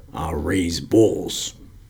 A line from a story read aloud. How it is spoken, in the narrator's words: would merely squint at these rough men and mumble